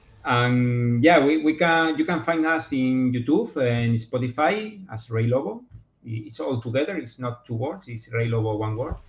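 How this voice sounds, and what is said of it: Strong non-native English accent. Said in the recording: “my awful accent”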